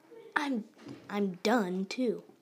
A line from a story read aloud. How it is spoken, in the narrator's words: Thomas exclaimed